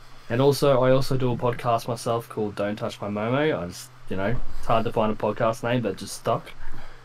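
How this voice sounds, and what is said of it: Australian accent. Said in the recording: “I don't know if you can tell from my voice, but I'm from down under Australia.”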